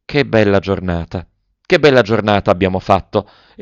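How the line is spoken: Sighing. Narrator (Italian): E sospirava

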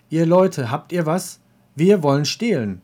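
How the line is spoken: Calling out. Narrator (German): Katalieschen rief

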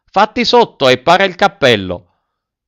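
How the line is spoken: Old man's shout. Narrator (Italian): la voce del solito vecchino gridò

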